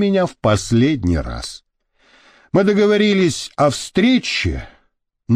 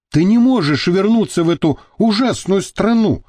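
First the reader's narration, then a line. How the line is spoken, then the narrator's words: Exclaiming. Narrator (Russian): воскликнула я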